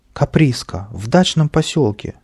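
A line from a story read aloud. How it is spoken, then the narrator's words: Old man's exclamation. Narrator (Russian): воскликнул старый артист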